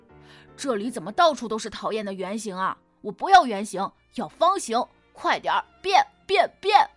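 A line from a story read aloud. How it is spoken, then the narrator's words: Angry shouting. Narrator (Chinese): 芳芳生气的喊道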